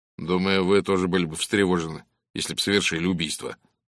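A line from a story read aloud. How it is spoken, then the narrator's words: Gloomy. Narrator (Russian): мрачно произнес Норман Гейл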